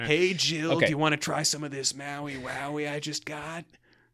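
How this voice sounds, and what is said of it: Skeevy hippie character voice. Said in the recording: “my Willow impression. Willow has always been a skeevy hippie.”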